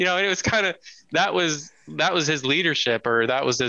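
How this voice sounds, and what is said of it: Usual voice. Nothing is said of it.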